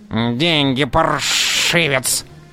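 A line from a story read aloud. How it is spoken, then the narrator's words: Hissing. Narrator (Russian): шипел низенький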